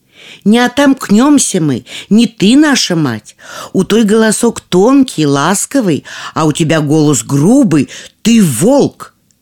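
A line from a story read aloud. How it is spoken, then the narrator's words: Young goats shouting. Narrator (Russian): козляточки крикнули ему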